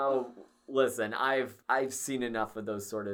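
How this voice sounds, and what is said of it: Usual voice. Nothing is said of it.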